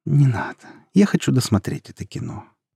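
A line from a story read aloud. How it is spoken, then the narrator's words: Tender. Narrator (Russian): нежно сказала Юля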